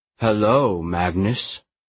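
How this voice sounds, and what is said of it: Deep voice. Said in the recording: “a deep voice said”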